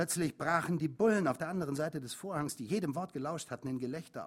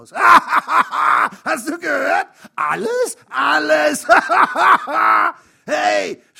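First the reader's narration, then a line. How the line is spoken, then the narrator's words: Breathless scream. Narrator (German): schrie der andere und schnappte nach Luft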